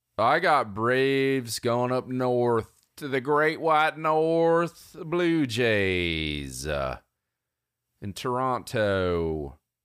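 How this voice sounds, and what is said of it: Put-on accent of unclear origin. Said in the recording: “I don't know what this accent is.”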